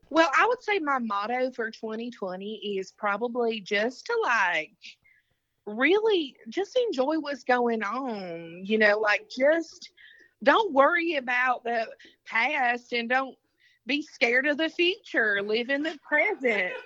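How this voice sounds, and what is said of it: Southern accent. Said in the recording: “A Southern accent giving me your motto for 2020 so far.”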